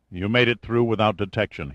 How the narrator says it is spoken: said

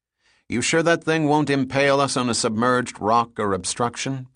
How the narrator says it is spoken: Pitt asked

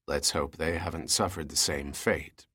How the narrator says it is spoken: Pitt said quietly

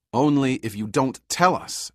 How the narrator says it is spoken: Pitt said harshly

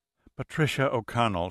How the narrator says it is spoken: said wearily

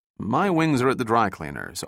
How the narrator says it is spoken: Austin replied

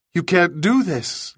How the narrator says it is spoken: Linda cried

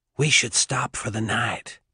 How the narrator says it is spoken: McDee said in a whisper

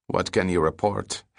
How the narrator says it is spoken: Hammett asked

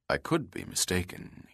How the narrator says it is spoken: murmured without conviction

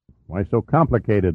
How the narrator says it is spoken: muttered Giordino

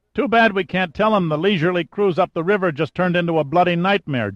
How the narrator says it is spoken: Giordino bellowed

